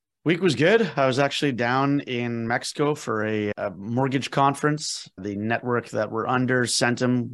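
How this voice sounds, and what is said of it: Slightly hoarse, tired-sounding voice. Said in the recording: “My voice is a little hoarse because I didn't get back until very late in the morning. So very limited sleep right now. So if my energies are a little low”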